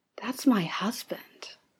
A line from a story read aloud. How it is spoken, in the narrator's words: Arthur whispers